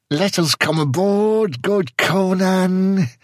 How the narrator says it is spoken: whined a red-sashed Samorian, glancing fearfully

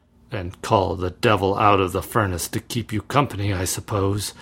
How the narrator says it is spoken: muttered Bartram, who had been making intimate acquaintance with the black bottle

